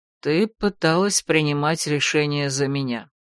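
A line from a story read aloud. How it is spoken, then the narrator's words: Cold interruption. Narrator (Russian): холодно перебил ее Ролан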